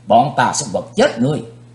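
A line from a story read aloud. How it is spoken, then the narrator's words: Two youths shouting together. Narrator (Vietnamese): Hai gã thiếu niên cùng quát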